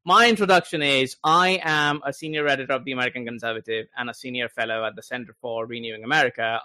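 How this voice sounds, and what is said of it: Foreign, non-American accent. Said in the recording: “as you can guess from my accent, not from this country”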